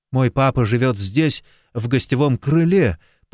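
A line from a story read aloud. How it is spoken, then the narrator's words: Trembling voice. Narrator (Russian): повторил Джейсон дрожащим голосом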